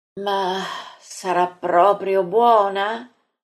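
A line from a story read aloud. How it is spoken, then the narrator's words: Sighing question. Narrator (Italian): Maria chiede in un sospiro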